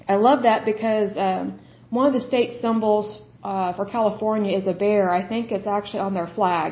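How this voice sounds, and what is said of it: Slightly hoarse, strained voice. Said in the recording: “I'm about losing my voice a little bit”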